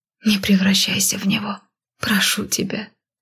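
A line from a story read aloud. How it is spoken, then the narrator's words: Quietly breathed out. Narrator (Russian): тихо выдохнула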